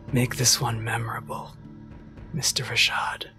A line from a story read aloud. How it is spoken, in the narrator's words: You get one more whisper from Kabe and he says